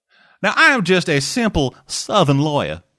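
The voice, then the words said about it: Exaggerated put-on Southern US accent. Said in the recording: “Don't forget, we don't all talk with that accent. ... good old Southern law boy”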